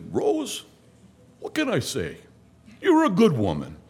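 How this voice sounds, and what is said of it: Thick put-on Italian accent. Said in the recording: “with a real thick Italian accent”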